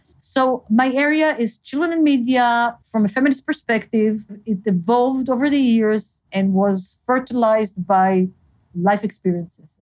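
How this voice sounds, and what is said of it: Non-native English, Hebrew-speaker accent. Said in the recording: “being an immigrant, having an accent, always being very conscious that my English is not as good as others ... if I only could say it in Hebrew”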